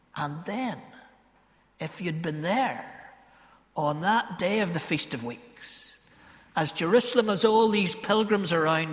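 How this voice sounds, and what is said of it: Ballymena accent. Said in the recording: “Ballymena folk are a bit like Galileans because we're, you know, our accent betrays us. And I thought my accent betrayed me”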